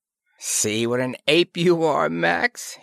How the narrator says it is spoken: he chuckled

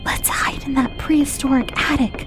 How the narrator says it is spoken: whispered Carl

